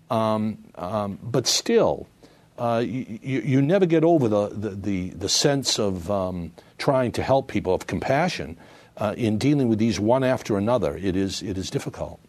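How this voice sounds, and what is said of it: Massachusetts accent. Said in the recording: “I think people can probably hear in your accent that you have some Massachusetts roots yourself from nearby Brockton”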